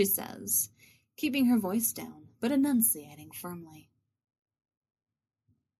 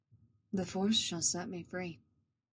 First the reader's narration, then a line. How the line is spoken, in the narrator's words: Revan murmurs